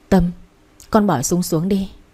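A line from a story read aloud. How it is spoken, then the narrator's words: Trembling voices in unison. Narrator (Vietnamese): Mọi người đồng loạt run run bảo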